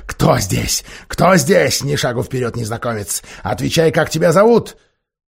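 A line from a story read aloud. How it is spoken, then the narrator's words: Huge beast's roar. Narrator (Russian): огромный зверь … разинул большую красную пасть и прорычал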